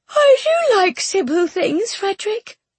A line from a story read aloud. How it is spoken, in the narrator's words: she replied sweetly